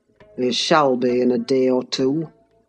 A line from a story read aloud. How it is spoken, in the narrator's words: muttered Heathcliff